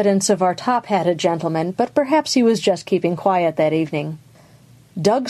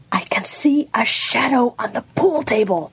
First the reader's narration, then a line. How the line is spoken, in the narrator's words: she said in a fierce whisper